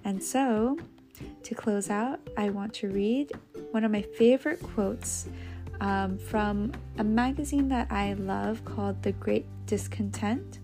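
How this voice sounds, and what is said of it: Strained, worn-out voice. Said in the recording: “you can hear my voice is going a bit from all the talking today”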